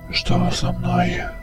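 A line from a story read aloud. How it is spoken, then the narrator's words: Whispered. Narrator (Russian): прошептал он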